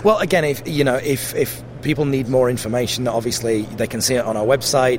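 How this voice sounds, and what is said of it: Mixed Yorkshire and South African accent. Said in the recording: “you have a really interesting accent ... my accent is really, really weird ... I'm from Yorkshire. So in the UK, Yorkshire is a very, very kind of broad accent. But weirdly, I grew up in South Africa”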